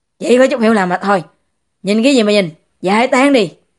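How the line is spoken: Embarrassed angry shout. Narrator (Vietnamese): Dịch Hòa Tụng cảm thấy rất mất mặt, tức giận quát to

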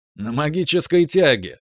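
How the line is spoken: Laughing. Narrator (Russian): рассмеялся Дезариус

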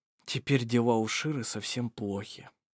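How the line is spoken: Quiet. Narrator (Russian): тихо сказал Вассар

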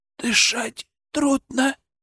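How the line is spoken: Tearful whisper. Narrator (Russian): прошептал Сенька, и в глазах его блеснули слезы

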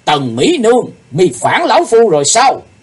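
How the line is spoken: Loud angry bellow. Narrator (Vietnamese): Sư Diện Quái Ma quát lớn

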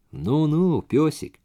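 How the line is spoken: Pleasant, meaningful voice. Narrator (Russian): произнес он тем же приятным, многозначительным голосом

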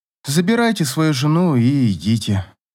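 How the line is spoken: Tired, helpless. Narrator (Russian): устало сказала Катя, чувствуя себя совершенно безоружной перед чужим неприкрытым проявлением счастья и любви

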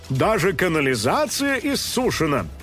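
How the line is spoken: Panicked shouting into microphone. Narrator (Russian): в панике кричал в микрофон журналист

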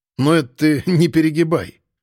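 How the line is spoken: Wry snort. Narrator (Russian): хмыкнул

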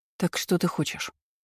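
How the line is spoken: Quiet, drunken fervor fading. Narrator (Russian): Тихо поинтересовалась, когда ее пьяный запал поутих

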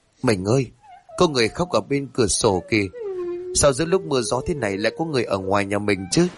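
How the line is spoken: Soft frightened cry, trembling. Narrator (Vietnamese): Hà rú lên khè khẽ, toàn thân run bần bật, níu bắp tay của chồng mà nói

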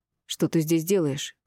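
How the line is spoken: Startled, through gritted teeth. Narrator (Russian): процедила нашарашенно

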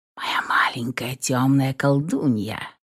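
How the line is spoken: Quiet voice. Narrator (Russian): Тихим голосом проговорил Франк

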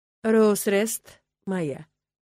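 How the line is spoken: Calm speech. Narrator (Russian): спокойно проговорил я

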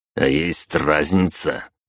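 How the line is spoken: Cold disguised voice. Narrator (Russian): холодно бросил я, изменив голос

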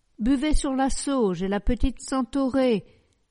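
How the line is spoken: Loving shout. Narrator (French): lui criait Félicité d'amour

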